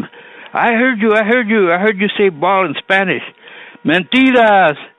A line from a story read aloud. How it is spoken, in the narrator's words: Mike Calizondo, for example, determined to have as much fun from the contest as possible, shouted at Lee